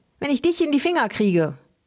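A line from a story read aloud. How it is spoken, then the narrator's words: Calling out. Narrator (German): rief Helmi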